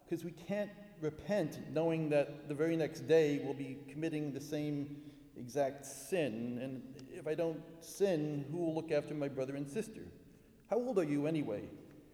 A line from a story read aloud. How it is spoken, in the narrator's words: I said nervously